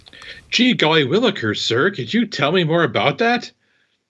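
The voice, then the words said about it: Exaggerated naive young-person voice. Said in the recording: “my young person impression”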